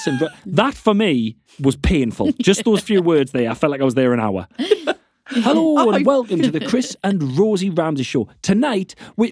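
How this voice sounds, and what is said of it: Friendly, inviting regional accent. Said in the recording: “It's such a nice accent. It's so friendly. ... so inviting.”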